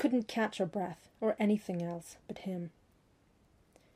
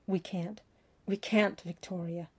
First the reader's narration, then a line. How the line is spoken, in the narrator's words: panted, visibly struggling for stillness